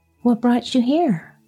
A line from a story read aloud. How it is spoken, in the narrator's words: asked Hamlet, kindly